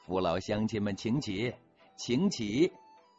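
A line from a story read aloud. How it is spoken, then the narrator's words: Smiling. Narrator (Chinese): 含着笑说了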